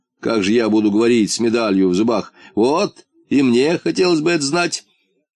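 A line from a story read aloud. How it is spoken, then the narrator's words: Laughing half-boot. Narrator (Russian): засмеялся полботинка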